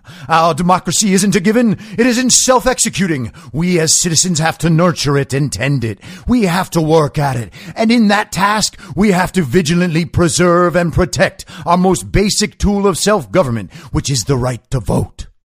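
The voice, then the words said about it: Soulful imitation of a politician's oratory. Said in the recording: “Did that sound very soulful? Do I sound like Barack Obama as a civil rights leader from a former era? That was what I was going for.”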